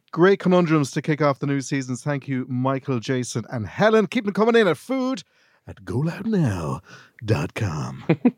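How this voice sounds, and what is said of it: Radio DJ voice. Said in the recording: “How's that for a DJ voice?”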